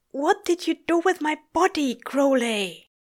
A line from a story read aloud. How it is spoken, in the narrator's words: Aziraphale gasped, shaking